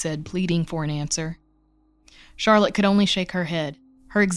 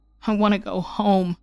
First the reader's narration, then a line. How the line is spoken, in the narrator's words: Kai whimpered